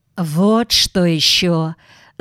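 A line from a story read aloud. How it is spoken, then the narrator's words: Soft, almost caressing. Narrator (Russian): заговорил Дулебов мягким и почти ласкающим тоном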